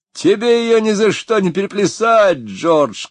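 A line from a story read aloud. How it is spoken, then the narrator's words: Shout. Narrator (Russian): крикнул кто-то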